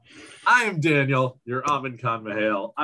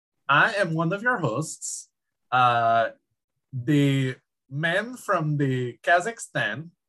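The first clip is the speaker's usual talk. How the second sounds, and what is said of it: Borat impression, Kazakh-style accent. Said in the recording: “Borat ... I will stop using that accent because it is fun, but it is not appropriate for the time”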